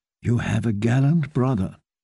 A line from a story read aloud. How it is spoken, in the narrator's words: whispered